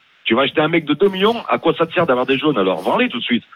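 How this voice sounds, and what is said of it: Saint-Étienne French accent. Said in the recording (French): “Avec son accent stéphanois, quand ... dit des jaunes, c'est des jeunes.”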